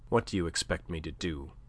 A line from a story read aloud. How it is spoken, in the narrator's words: asked, evincing surprise in his own turn, but faintly